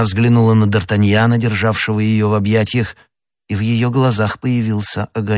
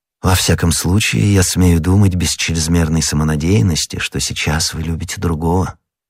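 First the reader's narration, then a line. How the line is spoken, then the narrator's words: Young man's tender tone. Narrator (Russian): сказал молодой человек нежным тоном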